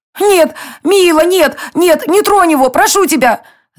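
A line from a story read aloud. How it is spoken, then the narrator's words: Pleading scream. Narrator (Russian): закричала Ая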